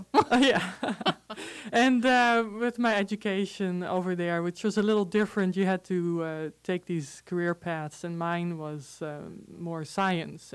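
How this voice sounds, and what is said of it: Dutch accent in English. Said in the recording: “So, okay, so you have an accent. ... I can get rid of it, but I'll just keep it. ... this is not Spanish. Spanish accent. It's Dutch. I grew up in the Netherlands”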